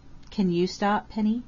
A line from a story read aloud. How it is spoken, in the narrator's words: he asked gently